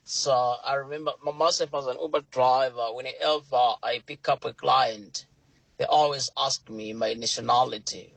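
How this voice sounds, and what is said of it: British accent. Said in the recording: “my British accent ... in Malawi, we are taught in British accent. That's why I've got a British accent.”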